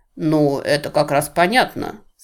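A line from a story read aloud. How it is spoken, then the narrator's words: Plain. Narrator (Russian): сказал Крадок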